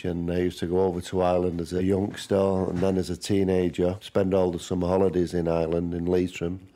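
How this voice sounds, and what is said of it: Manchester English accent. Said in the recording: “my Manchester accent”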